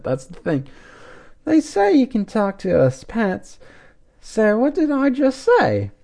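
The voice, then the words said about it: Put-on British accent. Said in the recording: “I'm going to have to use the same British accent ... she replies in a British accent”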